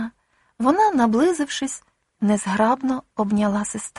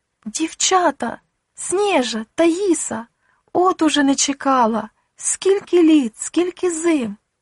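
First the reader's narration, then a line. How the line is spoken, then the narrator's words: Elderly woman, confused exclamation. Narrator (Ukrainian): літня жінка розгублено вигукнувши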